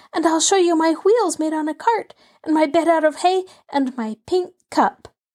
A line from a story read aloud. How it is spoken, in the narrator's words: screamed Benny